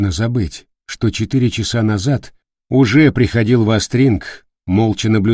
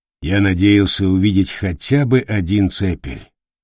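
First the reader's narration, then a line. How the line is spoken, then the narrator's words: Muffled, hollow voice. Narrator (Russian): глухо произнес Дардаген Тур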